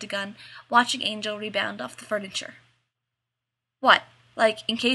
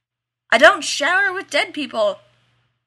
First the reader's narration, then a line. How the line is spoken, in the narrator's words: he yelled back to her